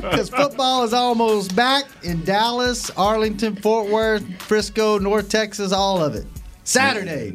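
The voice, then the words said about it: Loud hollering announcer radio voice. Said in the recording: “me hollering to lead the show off ... You have such a radio voice.”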